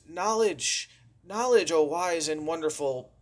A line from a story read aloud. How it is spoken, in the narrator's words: between heavy, heavy breaths, the fellow wheezed